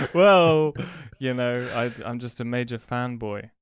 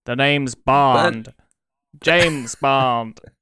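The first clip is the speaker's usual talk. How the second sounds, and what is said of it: Bad put-on American accent. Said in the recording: “probably the worst American accent”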